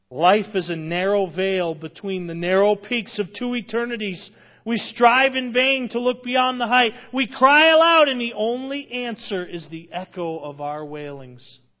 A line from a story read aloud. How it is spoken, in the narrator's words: Ingersoll exclaimed with his brother by his graveside